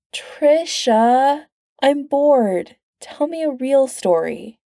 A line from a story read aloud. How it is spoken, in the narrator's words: Pete whines